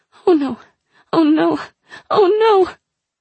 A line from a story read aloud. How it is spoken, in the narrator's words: My own thoughts rose louder, terrified and elated, but still partly, desperately in denial, going